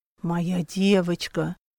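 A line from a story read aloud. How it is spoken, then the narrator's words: Hoarse rasp in ear. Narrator (Russian): Прохрипел ей на ушко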